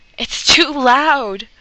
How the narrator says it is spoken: Sam yells

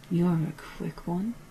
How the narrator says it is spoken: purred Varage, just as the Doctor had earlier

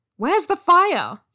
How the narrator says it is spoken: he shouted

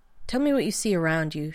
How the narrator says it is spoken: Shepard said, finally

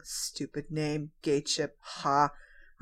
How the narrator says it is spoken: John is in the background muttering

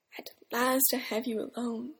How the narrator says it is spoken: Eames sighed

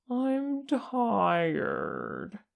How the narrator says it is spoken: he whined

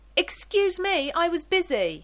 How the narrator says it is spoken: John shouts

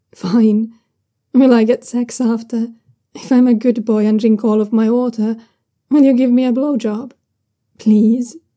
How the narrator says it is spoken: Young Susian wheedles, trying not to laugh

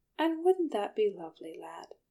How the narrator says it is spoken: Bilbo asked kindly

